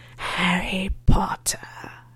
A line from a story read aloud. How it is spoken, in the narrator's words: hissed